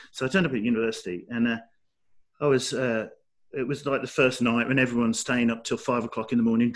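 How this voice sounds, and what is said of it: Fairly strong Black Country accent. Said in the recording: “I still, to you, I probably have quite a strong accent, but I had this much more... what we'd say Black Country accent”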